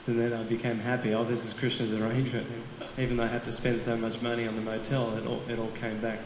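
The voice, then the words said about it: Australian accent. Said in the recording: “He's an amazing devotee from Australian Yatra, as you can hear from his accent.”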